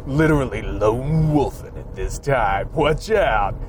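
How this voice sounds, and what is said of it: Announcer voice. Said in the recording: “I've still got the announcer voice going ... I cannot get away from the announcer voice”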